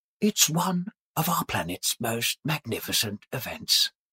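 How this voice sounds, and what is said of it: David Attenborough impression. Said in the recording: “That's brilliant. David Attenborough. ... that was obviously David Attenborough. ... That was so good.”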